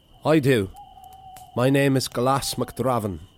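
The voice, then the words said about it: Put-on Irish accent. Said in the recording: “in an Irish voice.”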